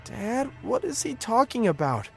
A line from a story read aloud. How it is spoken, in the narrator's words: I asked, my voice trembling